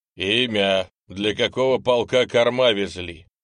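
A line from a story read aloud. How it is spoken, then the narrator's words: Loud officer's question. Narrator (Russian): громко спросил милицкий лейтенант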